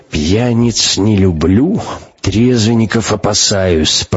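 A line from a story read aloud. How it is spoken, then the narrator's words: Grumbling. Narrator (Russian): проворчал Абакумов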